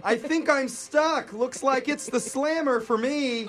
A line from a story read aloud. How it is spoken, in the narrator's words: she could still be heard on the bullhorn, yelling